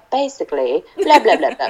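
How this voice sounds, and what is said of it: Poor put-on British accent. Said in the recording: “in a British accent ... That was a horrible accent.”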